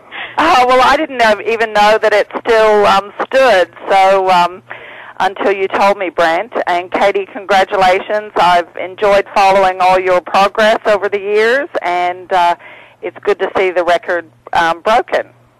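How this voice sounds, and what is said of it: Tennessee accent with Australian tinge. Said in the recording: “you lost that Tennessee accent, and it's got a little Australian tinge ... I try to keep a bit of my twang ... pick up some different words and phrases and intonations in my accent”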